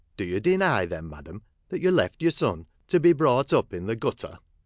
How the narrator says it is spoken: Gradgrind, shocked by the possibility which dawned upon him, said in a gentler tone

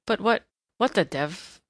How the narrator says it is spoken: muttered Ryder

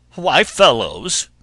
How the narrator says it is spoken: spluttered

